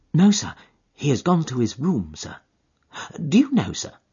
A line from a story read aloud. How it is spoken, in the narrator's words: sinking her voice into an impressive whisper